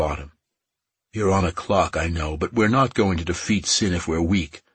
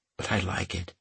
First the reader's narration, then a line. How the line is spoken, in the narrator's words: In a stage whisper, added